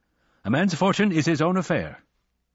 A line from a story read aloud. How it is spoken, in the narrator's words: said Wednesday, stiffly